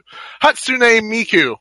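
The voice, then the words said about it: Failed attempt at a put-on accent. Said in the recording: “my accent is failing me”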